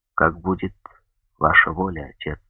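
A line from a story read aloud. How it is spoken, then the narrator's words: Quiet after a pause. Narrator (Russian): Франческо помолчал и тихо сказал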